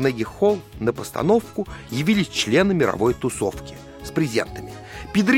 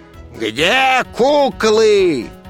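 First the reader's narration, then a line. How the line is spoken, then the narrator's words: Crowd roaring loudly. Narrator (Russian): людская масса взревела, как пожарная машина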